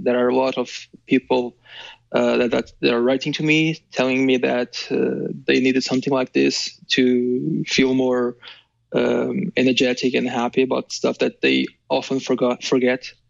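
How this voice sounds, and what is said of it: Sleepy voice, slight stuttering. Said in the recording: “I'm kind of sleepy. That's why I'm stuttering a little bit.”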